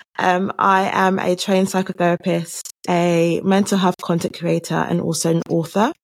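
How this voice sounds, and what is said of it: London English accent. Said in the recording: “I have a London accent, so I'm from London, UK.”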